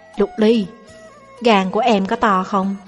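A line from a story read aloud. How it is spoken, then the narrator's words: Lowered voice question. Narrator (Vietnamese): tôi hạ giọng hỏi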